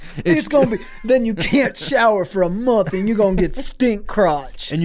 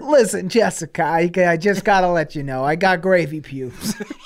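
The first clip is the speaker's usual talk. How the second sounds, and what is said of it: Imitates another person's voice. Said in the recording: “That's a good impression.”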